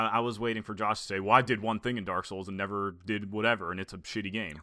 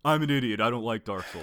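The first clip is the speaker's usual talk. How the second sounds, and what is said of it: Imitates another person's voice. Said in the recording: “your impression of Josh”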